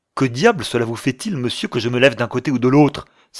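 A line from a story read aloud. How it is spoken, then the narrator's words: Angry exclamation. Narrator (French): s'écria Will en serrant les poings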